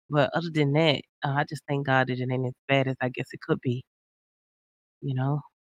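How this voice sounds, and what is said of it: Slightly hoarse, tired voice. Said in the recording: “I'm a little hoarse, tired mostly”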